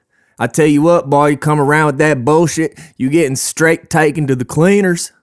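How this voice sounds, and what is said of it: Put-on Southern US accent. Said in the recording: “I don't know why I'm doing a southern accent,”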